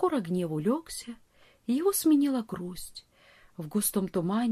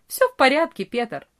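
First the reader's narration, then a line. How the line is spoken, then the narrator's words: Cheerful. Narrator (Russian): весело ответил Франц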